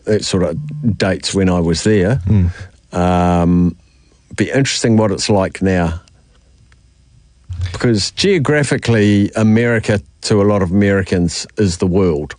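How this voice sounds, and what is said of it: New Zealand accent. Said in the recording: “your accent, where you're from, you go New Zealand”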